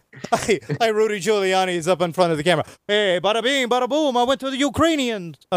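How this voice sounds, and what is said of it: Brooklyn accent, Rodney Dangerfield-like. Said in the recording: “I don't know why I'm giving him a Brooklyn accent. ... Now I've made him Rodney Dangerfield.”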